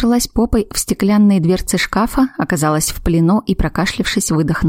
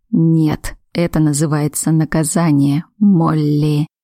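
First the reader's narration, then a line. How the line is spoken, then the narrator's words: Hoarse whisper. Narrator (Russian): хрипло прошептал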